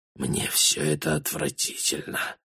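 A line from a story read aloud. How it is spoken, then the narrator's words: Only a whisper. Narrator (Russian): смог лишь прошептать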